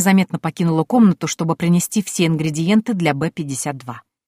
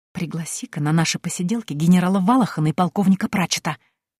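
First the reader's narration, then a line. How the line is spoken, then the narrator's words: Whisper. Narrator (Russian): шепнула я старому Гудвину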